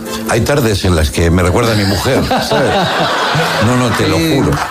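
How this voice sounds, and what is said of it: Put-on Argentine Spanish accent. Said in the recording (Spanish): “¿Te sale el acento? ... Sí, me sale el acento”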